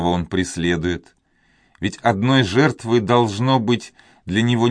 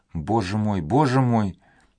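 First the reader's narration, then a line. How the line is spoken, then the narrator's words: Pleading whisper. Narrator (Russian): прошептала Донья Клара, сложив руки с мольбой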